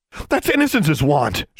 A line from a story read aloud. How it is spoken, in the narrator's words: she cried